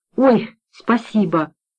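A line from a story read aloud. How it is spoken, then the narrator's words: Relieved sigh. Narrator (Russian): вздохнула женщина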